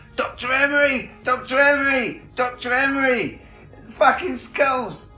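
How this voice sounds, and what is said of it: Shouting. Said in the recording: “I'm shouting,”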